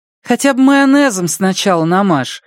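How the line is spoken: Said, then laughing. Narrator (Russian): сказала Андреа и рассмеялась собственной шутке

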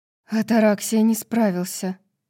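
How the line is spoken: Horrified breathless exhale. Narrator (Russian): выдохнула Неста, лицо которой оставалось полным ужаса

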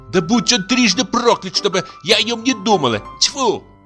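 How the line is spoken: Flaring, angry shouting. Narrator (Russian): когда ей напоминали о нем, она вспыхивала и кричала

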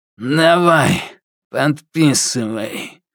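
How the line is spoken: Strange old man's grunt. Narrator (Russian): прокряхтел он странным стариковским голосом

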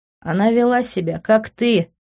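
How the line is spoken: Quick retort with chuckle. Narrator (Russian): тут же нашелся Лес, хохотнув

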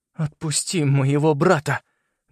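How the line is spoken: Trembling demand. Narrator (Russian): дрожащим голосом потребовал

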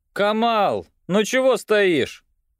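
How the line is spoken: Shouted by tall young man. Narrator (Russian): крикнул высокий загорелый блондин, Виталий, помощник капитана

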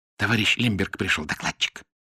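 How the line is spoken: Whisper. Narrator (Russian): шепнула Лидка

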